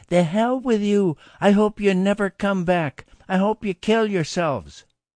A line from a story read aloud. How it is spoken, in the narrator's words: He screamed